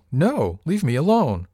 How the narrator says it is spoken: I heard her shout from below

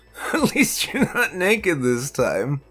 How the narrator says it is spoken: I laughed

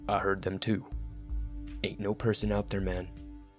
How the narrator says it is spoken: he mumbled

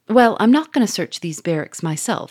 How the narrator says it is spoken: said Gouchard

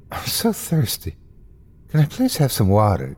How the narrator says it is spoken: she pleaded to the bartender

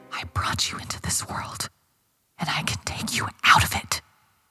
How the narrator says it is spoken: she whispered

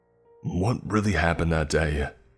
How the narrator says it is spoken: he demanded angrily

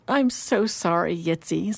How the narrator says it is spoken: Sarah said tearfully

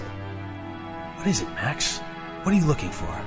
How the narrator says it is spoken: Casey asked under her breath

